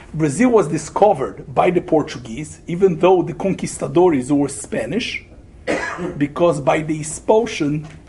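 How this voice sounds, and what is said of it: Brazilian accent. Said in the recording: “I'm Brazilian, if you didn't agree with my accent, I'm Brazilian.”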